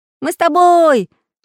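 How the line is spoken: Excited shout, two voices. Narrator (Russian): закричали Прутик и Чижик

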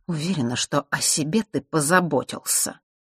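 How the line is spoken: Through gritted teeth, woman. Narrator (Russian): процедила сквозь зубы темноволосая часовщица

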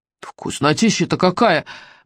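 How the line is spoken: Mumbling with full mouths. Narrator (Russian): бормотали болотные огни с набитыми ртами

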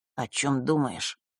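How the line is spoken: Quiet question. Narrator (Russian): тихо спросил Маар

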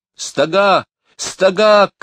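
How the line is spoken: Shouted. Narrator (Russian): крикнула Лора

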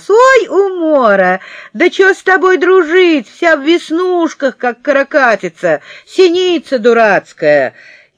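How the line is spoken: Loud guffawing shout. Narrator (Russian): Павлик захохотал, как дурак, и заорал на весь класс

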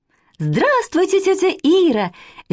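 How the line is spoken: Cheerful shout, young girl. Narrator (Russian): весело закричала с порога старшая, Катя, неполных 7 лет

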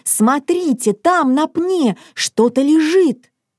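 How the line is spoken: Exclaimed. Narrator (Russian): Мац воскликнул

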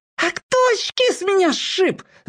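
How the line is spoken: Sudden squeal. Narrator (Russian): завизжал вдруг воспитанный

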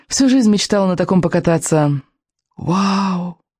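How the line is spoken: Breathless admiration. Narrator (Russian): восхищенно выдохнул Икинг

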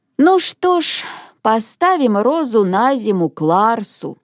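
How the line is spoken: Sighing grandmother. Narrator (Russian): вздохнула бабушка

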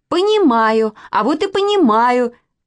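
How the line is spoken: Shouting. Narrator (Russian): закричала Нинка

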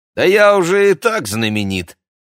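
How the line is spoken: Smug snort, boy. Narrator (Russian): хмыкнул мальчишка

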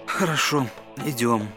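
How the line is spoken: Reluctant, heavy sigh. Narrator (Russian): Аладдину очень не хотелось идти, но, услышав про мешок, он тяжело вздохнул и сказал

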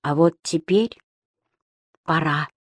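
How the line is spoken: Quiet. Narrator (Russian): тихо сказал лысый Пер

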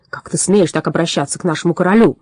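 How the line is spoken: Troll's bark. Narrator (Russian): рявкнул тролль

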